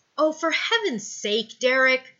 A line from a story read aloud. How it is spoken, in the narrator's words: snarls